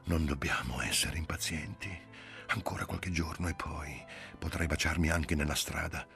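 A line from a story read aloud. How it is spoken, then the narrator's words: Breathless whisper. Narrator (Italian): senza fiato e Giulia sussurrò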